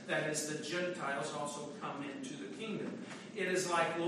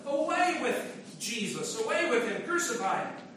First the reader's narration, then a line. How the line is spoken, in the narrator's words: They cried out to Pilate